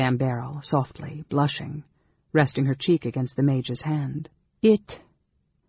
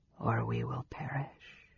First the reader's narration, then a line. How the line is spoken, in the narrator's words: Raistlin murmured